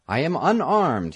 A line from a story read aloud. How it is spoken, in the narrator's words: cried in a loud voice